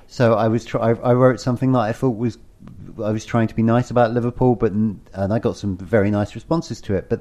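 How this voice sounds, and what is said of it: English Estuary accent. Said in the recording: “my estuary accent”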